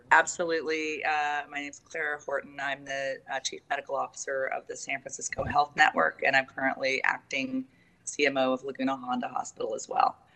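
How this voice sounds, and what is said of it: Hoarse, weak voice. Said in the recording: “I'm getting over laryngitis, so I hope you can hear me.”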